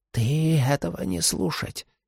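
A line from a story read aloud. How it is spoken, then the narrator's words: Old man's whisper. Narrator (Russian): прошептал старик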